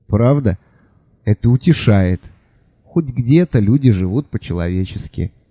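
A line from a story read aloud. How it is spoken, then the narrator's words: Sighing. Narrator (Russian): вздохнул король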